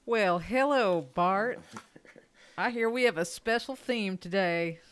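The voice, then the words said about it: Put-on Southern US accent. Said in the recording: “Is that your Tennessee accent? ... Yeah, it's my pan-southern accent.”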